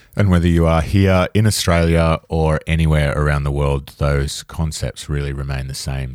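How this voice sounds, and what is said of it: Australian accent. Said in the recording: “we have an Aussie accent”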